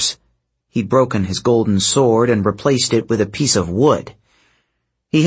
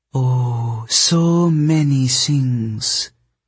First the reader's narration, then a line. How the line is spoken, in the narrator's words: the snow goddess purred